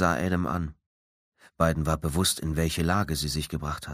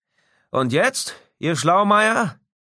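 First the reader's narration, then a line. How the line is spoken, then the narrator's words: Leader calling out. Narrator (German): Der Anführer rief zu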